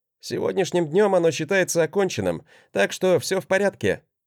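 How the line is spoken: Wry snort. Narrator (Russian): хмыкнул я на это

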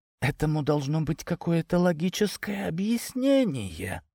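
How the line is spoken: Whisper. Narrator (Russian): нашептывала мать Антоша супругу

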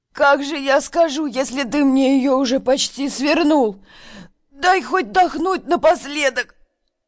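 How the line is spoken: Hoarse wheeze, half-choked. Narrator (Russian): Прохрипела Верка

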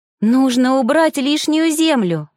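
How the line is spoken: Joyful statement. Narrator (Russian): радостно констатировала девушка

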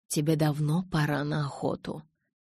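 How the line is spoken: Soft, gentle. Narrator (Russian): мягко произнес Карлайл

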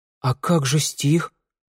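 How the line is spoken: Timid female reminder. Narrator (Russian): робко напомнила Санда

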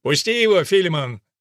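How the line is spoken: Shouted. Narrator (Russian): крикнул он

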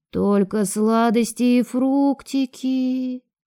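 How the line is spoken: Disappointed drawl. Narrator (Russian): разочарованно протянул Леон

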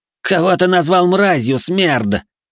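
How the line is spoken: Emboldened young man's shout. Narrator (Russian): крикнул осмелевший наследник Хэй

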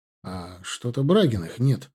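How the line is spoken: Quiet question. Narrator (Russian): спросил я тихонько

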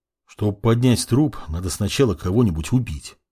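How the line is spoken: Grumbling mutter, mage. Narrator (Russian): буркнул маг

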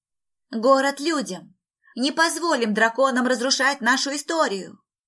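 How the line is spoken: Loud shouting. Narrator (Russian): громко кричала Пэм

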